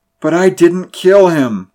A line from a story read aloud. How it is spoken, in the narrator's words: groaned Griswell